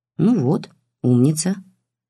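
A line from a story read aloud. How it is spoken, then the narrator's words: Calm. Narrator (Russian): спокойно сказал Сергей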